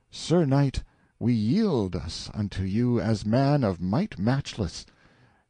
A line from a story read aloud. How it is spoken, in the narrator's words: they all 3 cried